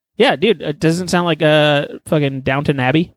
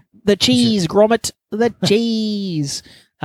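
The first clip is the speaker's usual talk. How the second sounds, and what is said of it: Put-on British accent. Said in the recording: “That was your accent there. ... I was hearing British people talk.”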